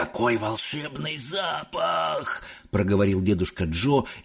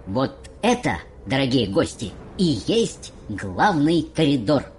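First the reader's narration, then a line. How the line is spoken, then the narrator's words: High voice over noise. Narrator (Russian): сказал мистер Уонка, перекрывая своим высоким голосом весь этот шум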